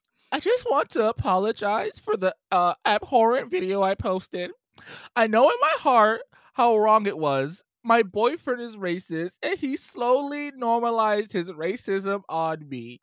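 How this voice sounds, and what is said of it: Put-on white girl voice. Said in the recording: “I'm gonna put on my white girl voice.”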